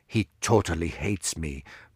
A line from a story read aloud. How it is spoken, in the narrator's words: muttered Chekov